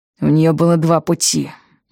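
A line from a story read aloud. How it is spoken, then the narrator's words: Gloomy musing. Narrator (Russian): мрачно рассуждал Потлатый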